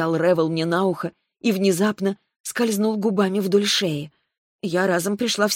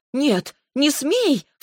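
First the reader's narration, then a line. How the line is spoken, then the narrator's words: Sharp cry. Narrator (Russian): вскрикнула я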